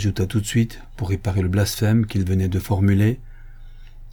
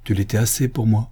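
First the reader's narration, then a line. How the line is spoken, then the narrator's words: Murmured. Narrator (French): murmura le canu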